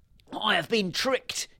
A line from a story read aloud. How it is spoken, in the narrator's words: he shouted